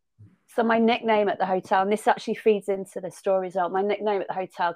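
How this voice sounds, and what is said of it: Lancashire accent. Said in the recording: “I'm a Merseyside girl with a Lancashire accent.”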